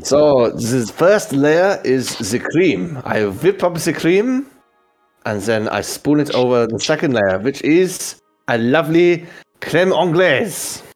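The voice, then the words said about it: Put-on foreign accent. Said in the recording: “those of us with this type of accent”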